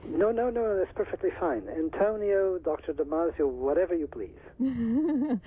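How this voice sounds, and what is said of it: Delicate Portuguese accent. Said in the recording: “I do detect a very delicate accent ... I was born in Lisbon, in Portugal ... the origin of my accent”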